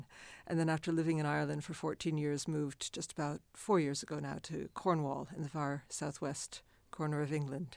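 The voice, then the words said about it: Hybrid accent, mistaken for Dutch or Canadian. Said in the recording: “the hybrid accent ... I get asked if I'm Dutch ... I get asked if I'm Canadian a lot ... I don't sound anywhere like I'm from where I am”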